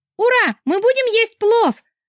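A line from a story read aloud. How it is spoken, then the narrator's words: Joyful shout. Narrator (Russian): радостно закричал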